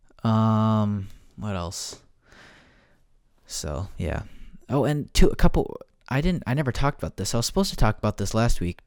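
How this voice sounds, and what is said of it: Rough voice, dry throat. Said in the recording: “Sorry if my voice sounds bad. I feel like I'm catching a little cold. Or my throat's a little dry.”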